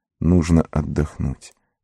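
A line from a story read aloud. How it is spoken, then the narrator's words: Muttering again. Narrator (Russian): пробормотал он снова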